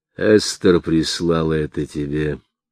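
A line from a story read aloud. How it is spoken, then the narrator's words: Plain. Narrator (Russian): сказал он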